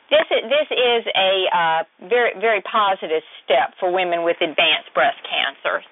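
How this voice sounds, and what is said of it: Southern US Georgia accent. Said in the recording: “you got that beautiful Georgia accent, too. I heard it already. All you had to do was say a few words, and I could hear it.”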